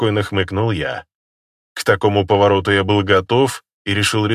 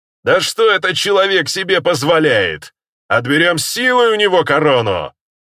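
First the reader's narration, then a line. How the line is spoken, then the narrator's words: Shouted. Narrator (Russian): крикнул один из вождей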